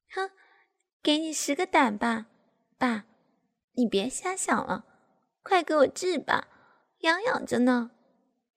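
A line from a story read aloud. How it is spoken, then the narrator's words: Laughing. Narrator (Chinese): 我笑着说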